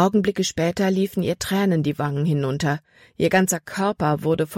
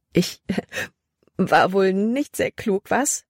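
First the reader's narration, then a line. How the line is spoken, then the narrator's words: Loud amused laughter. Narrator (German): Als wäre es das Lustigste, was sie je getan hatte, lachte sie laut heraus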